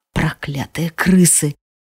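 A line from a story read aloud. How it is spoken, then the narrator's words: Exhaled. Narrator (Russian): выдохнул Арам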